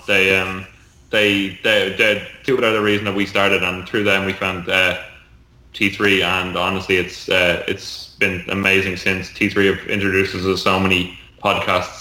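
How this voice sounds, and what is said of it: Smooth-sounding accent. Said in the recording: “He sounds so much better. ... So much smoother. It's the accent.”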